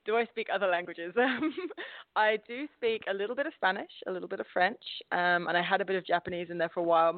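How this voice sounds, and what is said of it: English accent with Australian twang. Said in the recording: “my accent isn't of my hometown ... I've definitely picked up an Australian twang. When I go home, all of my friends say that I sound Australian ... this beautiful mishmash of places”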